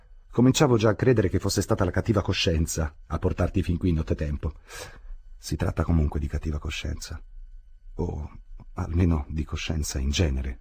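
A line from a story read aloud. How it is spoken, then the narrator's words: Plain. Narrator (Italian): rispose Fridolin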